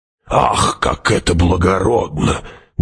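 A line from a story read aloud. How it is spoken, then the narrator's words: Mocking creaky voice. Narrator (Russian): глумливо проскрипела преподобная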